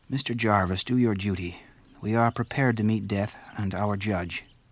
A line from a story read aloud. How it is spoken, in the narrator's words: They said to him very calmly